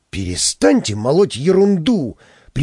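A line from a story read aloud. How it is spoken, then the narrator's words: Sharp shout. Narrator (Russian): прикрикнул я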